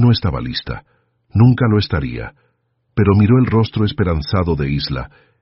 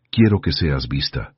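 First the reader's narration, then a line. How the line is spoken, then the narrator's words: Gentle correction. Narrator (Spanish): corrigió David suavemente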